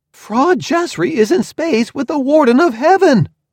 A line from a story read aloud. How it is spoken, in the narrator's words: I shouted